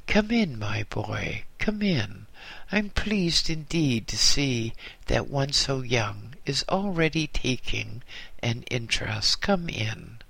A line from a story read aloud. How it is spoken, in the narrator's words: He smiled quite kindly and said